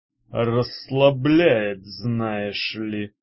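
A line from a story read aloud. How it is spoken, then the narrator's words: Grumbling. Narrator (Russian): проворчал мечник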